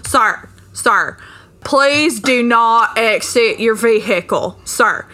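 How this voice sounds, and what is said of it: Imitates another person's voice. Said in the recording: “Let me do my character. It's like a Cecily Strong impersonation at this point.”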